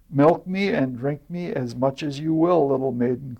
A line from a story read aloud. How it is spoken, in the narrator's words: cried the cow